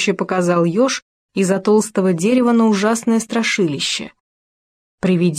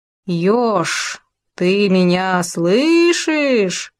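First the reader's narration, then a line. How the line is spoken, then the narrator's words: Eerie ghostly howl. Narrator (Russian): жутким голосом взвыло привидение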